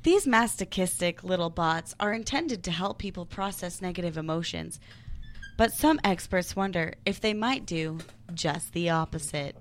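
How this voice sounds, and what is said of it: Newsreader-style reading voice. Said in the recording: “I have to get into my news voice.”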